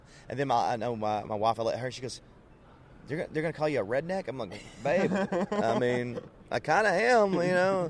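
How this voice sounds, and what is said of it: Southern American accent. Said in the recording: “They see the accent. Yeah. Most everybody from the North, he goes, oh, ... redneck.”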